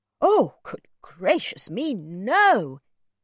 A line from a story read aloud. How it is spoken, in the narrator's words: he cried